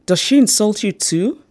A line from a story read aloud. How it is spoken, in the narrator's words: I exclaimed